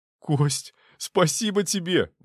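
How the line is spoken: Exclaiming. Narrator (Russian): воскликнул Чехов

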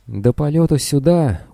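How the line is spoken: Gloomy reply. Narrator (Russian): уныло отозвался доктор Бреннер

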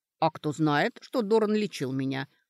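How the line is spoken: Snorted. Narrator (Russian): хмыкнула Сашка

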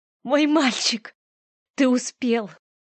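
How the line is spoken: Whispered into hair. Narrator (Russian): прошептал я ему в макушку

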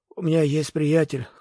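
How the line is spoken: Hoarse. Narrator (Russian): хрипло произнес Серано

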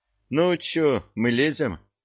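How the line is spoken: Sighing. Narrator (Russian): Простаков вздохнул

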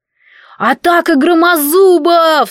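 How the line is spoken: Yelled. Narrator (Russian): заорал Этельен

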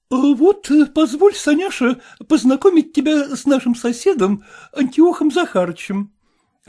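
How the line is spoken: Timid, anxious opening. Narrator (Russian): робко начала Манефа Мартыновна, опасаясь, чтобы дочь не сказала что-нибудь дерзкое

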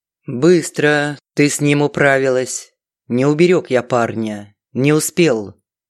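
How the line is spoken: Unexpectedly calm, even tone. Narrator (Russian): неожиданно спокойным ровным тоном, точно речь шла о прогулке в ближайшем парке, Фридман сказал

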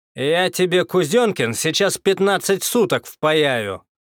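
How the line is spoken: Angry shout. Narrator (Russian): зло крикнул Козлов

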